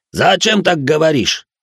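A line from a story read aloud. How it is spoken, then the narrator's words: Indignant exhale, put-on accent. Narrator (Russian): добавив в голос акцента, возмущенно выдохнул чех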